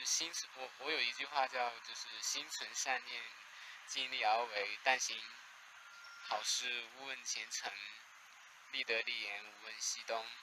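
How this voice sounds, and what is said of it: Slight Taiwanese Mandarin accent. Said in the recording (Chinese): “可能听起来有一点台湾口音，但实际上是实际上是大陆人”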